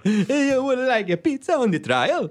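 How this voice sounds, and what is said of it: Bad put-on Italian accent. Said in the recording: “they just do a bad accent ... Italian”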